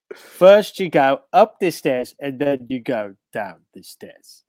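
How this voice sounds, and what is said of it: Imitates another person's voice. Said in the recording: “do a Michael Caine impression”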